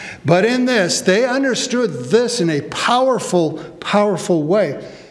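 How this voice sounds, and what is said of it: Usual voice. Nothing is said of it.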